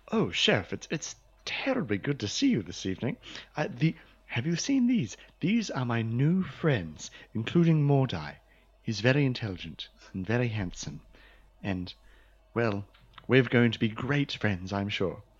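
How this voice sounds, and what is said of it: Posh High English accent. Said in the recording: “go from Western accent to High English and back again”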